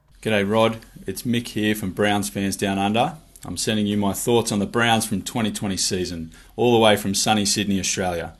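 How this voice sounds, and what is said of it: Australian accent. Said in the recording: “that wonderful Australian voice and accent”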